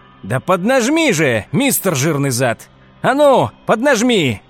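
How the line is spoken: Shouting. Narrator (Russian): кричал Хауэлл

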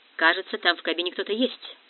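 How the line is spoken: Muttered. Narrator (Russian): пробормотал Росс

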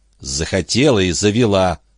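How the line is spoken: Tight-lipped, through teeth. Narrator (Russian): процедила Энн

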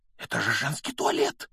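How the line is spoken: Breathless exclamation. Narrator (Russian): выдохнул Гарри

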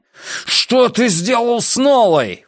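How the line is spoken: Screaming. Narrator (Russian): вопил Трэвис

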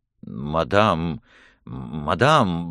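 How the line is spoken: Miserable mumbling. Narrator (Russian): бормотал Отто, чувствуя себя до нельзя несчастным

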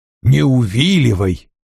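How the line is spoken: Grumbling. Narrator (Russian): проворчал Вульф

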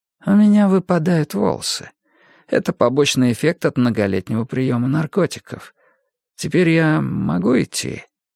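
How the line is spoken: Sighing. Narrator (Russian): Вестад вздохнул

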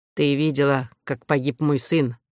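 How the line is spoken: Angry reply. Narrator (Russian): зло ответил Дедал

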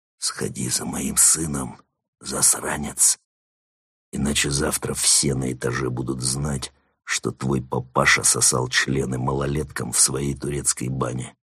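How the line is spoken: Whisper in ear. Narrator (Russian): прошептал ему на ухо

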